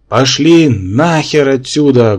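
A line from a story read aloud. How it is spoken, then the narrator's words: Menacing hoarse rasp. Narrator (Russian): грозно захрипел я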